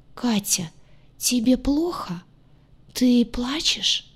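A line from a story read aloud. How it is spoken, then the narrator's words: Hoarse, genuinely worried. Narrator (Russian): Хриплый голос был полон неподдельной тревоги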